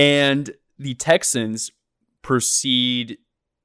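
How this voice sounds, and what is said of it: Usual voice. Nothing is said of it.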